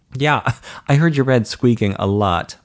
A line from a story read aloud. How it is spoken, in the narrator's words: Mike chuckled